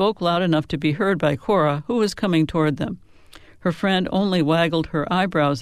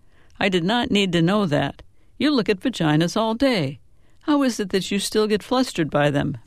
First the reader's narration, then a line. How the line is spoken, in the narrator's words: Manuela protested with a laugh